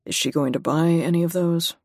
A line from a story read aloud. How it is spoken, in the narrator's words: Charlie drawls